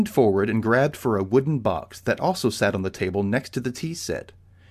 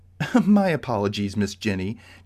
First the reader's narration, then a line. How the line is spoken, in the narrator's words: Josephine chuckled